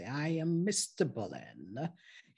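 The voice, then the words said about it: Put-on posh British accent. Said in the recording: “talk very British ... he was talking like he was British”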